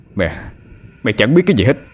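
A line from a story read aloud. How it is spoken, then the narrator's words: Loud shout. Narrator (Vietnamese): Anh quát lớn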